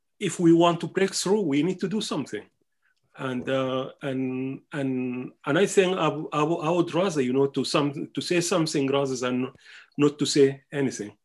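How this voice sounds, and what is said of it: Speaker's own foreign accent. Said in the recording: “i'm conscious of my accent i'm conscious mm. of the ways that i speak”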